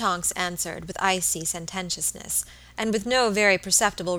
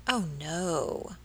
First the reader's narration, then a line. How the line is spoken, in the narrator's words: replied Miss Tonks, with a chilling accent